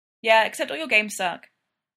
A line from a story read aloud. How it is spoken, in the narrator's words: Austin says plainly